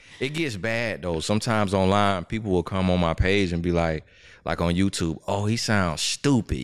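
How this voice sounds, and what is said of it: Slight Southern country twang. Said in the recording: “I hear the Alabama... a little country twang... you hear that underlying accent”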